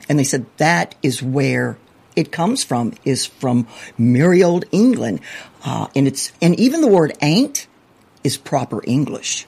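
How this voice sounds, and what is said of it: Southern American accent. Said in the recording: “I obviously have a very Southern accent”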